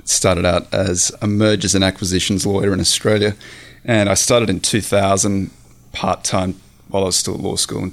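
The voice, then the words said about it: Australian accent. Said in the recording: “how you have such a great accent ... I'm Australian. I grew up in the Australian outback”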